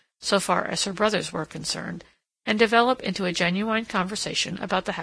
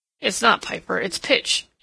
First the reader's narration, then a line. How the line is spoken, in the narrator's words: Edward grunted